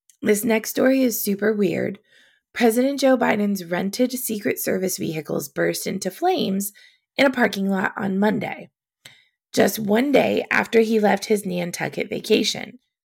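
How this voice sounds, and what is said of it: Hoarse, strained voice. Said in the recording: “I have a cough drop in my mouth, but I'm definitely losing my voice”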